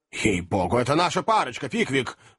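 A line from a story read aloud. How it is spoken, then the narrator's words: Elderly man exclaiming. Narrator (Russian): воскликнул пожилой джентльмен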